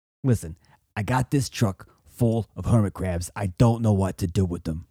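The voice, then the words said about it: New Jersey fat cat boss voice. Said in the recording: “your accents this episode are insane ... That's the sound a boss man makes ... The sound a fat cat, a big wig ... Why are they always from New Jersey?”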